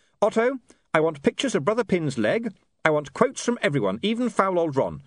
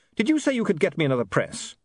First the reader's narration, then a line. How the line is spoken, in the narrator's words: said William sharply